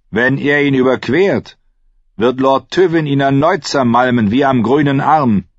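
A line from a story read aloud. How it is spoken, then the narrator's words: Archer replying. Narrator (German): erwiderte einer der Lannister-Bogenschützen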